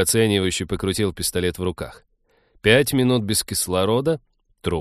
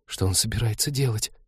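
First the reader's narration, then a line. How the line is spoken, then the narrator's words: Incredulous whisper. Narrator (Russian): прошептала Полина, зная ответ, но будучи не в силах в него поверить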